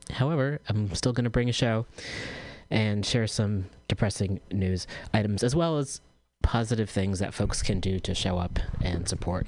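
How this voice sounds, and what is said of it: Low-energy, tired voice. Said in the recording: “I'm feeling super low energy today, as you can probably tell from my voice.”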